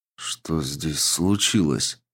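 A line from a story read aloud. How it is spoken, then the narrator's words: Quiet. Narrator (Russian): произнес негромко я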